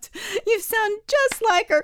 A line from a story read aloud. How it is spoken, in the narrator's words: Bessie snorted